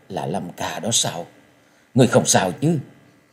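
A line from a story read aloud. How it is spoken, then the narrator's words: Trembling voice. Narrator (Vietnamese): giọng run run nói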